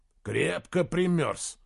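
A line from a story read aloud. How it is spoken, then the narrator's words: Mutter. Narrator (Russian): пробормотал он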